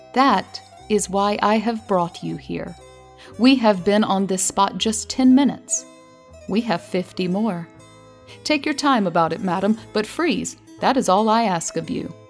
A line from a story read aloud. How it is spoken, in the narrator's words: said the master slowly